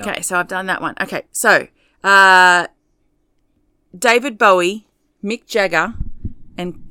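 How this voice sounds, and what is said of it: Yelling, very loud voice. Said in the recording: “I'm yelling. ... You're very loud.”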